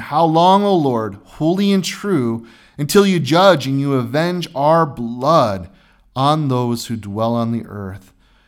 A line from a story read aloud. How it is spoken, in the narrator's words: they cried out with a loud voice, saying